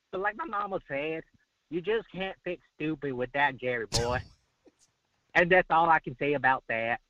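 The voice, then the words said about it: Forrest Gump character voice. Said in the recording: “these voices ... I'm going to do my voices ... Won all Forrest Gump on us”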